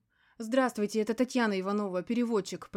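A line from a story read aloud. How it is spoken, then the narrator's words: Very agitated voice. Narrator (Russian): произнесла я самым взволнованным голосом, на который была сейчас способна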